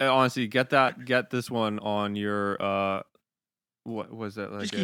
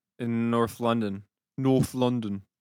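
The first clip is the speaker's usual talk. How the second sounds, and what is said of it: Put-on regional British accent. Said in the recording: “Did I say that good? I feel that was a good accent.”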